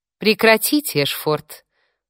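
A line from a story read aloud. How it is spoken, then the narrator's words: Mocking reply. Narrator (Russian): в тон ему насмешливо ответила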